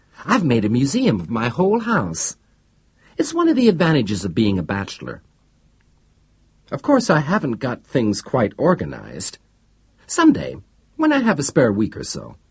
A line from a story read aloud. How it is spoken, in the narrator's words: Yerth said happily